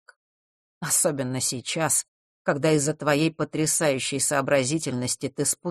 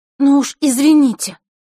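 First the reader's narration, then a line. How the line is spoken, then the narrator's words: Snapping back. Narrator (Russian): уловив иронию в его голосе, огрызнулась Василиса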